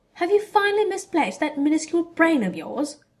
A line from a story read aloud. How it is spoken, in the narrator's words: cried Draco